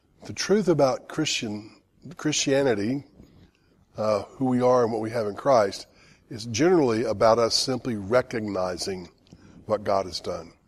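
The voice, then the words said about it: Strained voice, difficulty talking. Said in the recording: “Excuse my voice, I've got some lung issues that need to be healed, so I'm having a hard time talking.”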